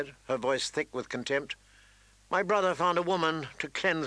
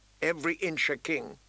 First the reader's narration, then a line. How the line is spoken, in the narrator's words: he said quietly